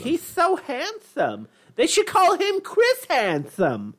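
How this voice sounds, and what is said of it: Imitates another person's voice. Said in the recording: “You sound like the Bob's Burgers ... that's how I do my mom's voice ... Bob's wife from Bob's Burger ... my impersonation of my mom”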